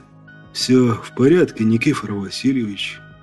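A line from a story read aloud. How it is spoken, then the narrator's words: Weak voice. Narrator (Russian): Слабым голосом произнес Петров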